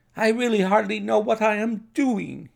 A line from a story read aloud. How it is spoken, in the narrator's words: he cried